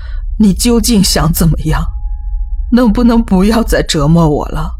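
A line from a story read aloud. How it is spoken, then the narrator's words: Crying, muttering. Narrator (Chinese): 我边哭边念叨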